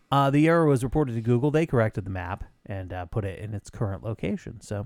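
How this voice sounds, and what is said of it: Usual voice. Nothing is said of it.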